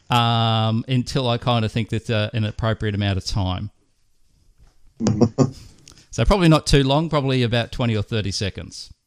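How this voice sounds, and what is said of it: Australian accent. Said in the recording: “Sorry for the Australian accent”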